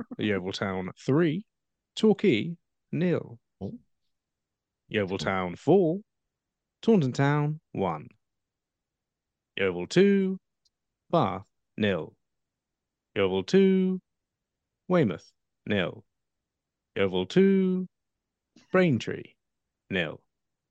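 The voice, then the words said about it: Imitates a football results announcer. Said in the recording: “my James Alexander Gordon impression ... Very good. Very good.”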